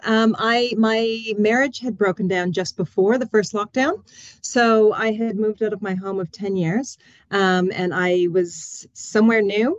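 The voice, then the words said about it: Foreign accent. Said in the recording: “You can tell by my accent. I'm from a long way away”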